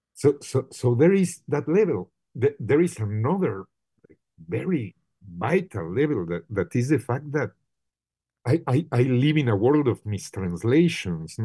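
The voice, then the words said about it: Strong Mexican Spanish accent in English. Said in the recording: “I'm a Mexican ... I still have, I'm very proudly, my super like hard accent.”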